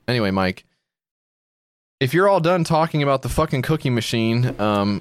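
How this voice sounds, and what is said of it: Passive-aggressive character voice, sounds like bad connection. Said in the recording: “Why are you talking like that? You're talking like your fucking connection's bad ... I'm doing a passive-aggressive character.”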